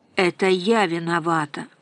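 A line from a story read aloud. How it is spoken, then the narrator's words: Mournful solemn sigh. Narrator (Russian): вздохнула мать с той же скорбной торжественностью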